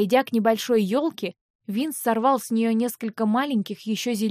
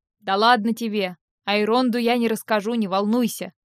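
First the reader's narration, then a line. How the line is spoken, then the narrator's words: Chuckling. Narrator (Russian): хохотнул он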